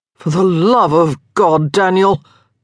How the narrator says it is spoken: Marcus groaned

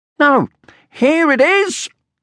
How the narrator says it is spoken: screamed Sniff

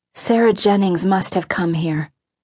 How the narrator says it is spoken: Aluna said wistfully

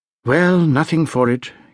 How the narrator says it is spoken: he said with a sigh

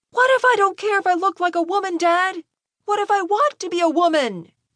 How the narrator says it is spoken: Malcolm had completely lost his cool at this point and was screaming at his father with tears streaming down his face

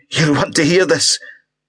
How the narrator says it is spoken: Paul tried to reach Angus, croaking

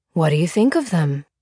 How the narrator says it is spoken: he asked, his voice even and pleasant

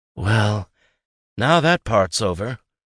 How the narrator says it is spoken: Jay sighed

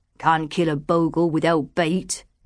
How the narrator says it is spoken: he growled

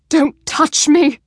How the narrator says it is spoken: She spat the words at him, as if she'd come to hate him as much as she clearly loathed herself

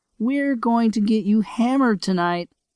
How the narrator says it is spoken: she laughed

